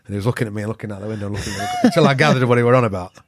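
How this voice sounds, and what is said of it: Yorkshire accent. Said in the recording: “Obviously not with a Yorkshire accent again.”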